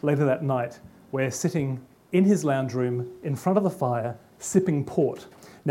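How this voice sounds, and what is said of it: Australian accent. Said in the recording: “I know that I've got an Australian accent”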